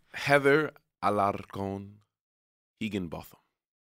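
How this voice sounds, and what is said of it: Puts an accent on a name. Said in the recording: “I don't know why you're adding an accent to the last name.”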